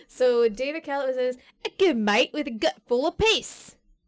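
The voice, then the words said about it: Attempted Australian accent, sounds British. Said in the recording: “I want to say that's not an Australian accent. ... That was more British than Australian.”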